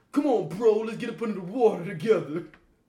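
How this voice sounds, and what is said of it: Laid-back frat dude voice. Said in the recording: “That's how he was talking, though. You can't tell me he wasn't talking like that ... He sounded like a frat dude ... do you remember all those Van Wilder movies? That's how he sounds like.”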